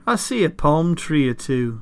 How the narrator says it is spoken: the dragon said

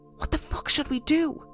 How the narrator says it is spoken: I whispered

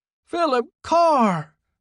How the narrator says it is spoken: shouted

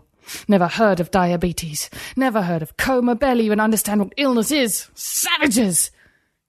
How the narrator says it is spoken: He spat the last word, angrier than he'd ever been

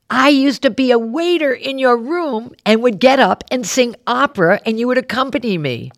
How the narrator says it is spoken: this guy blurts out

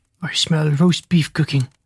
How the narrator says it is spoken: he mumbled

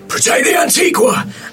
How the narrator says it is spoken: Immediately, Morgan shouts

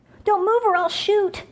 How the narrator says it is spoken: Julie shouted

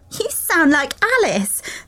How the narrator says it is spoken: Sara said, laughing

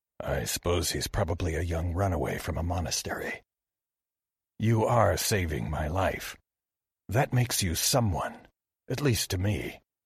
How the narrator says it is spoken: Kinori murmured

